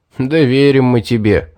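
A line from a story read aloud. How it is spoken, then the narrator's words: Laughing. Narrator (Russian): рассмеялся Стоун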